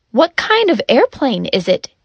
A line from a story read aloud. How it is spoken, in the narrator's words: he asked